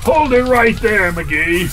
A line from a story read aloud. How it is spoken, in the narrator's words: shouted the general